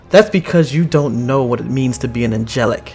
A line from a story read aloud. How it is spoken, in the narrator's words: Chase yells